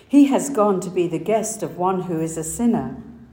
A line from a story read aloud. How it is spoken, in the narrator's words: All began to grumble and said